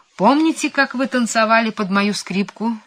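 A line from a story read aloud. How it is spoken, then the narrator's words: Cheerful question. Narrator (Russian): спрашивал он, весело подмигивая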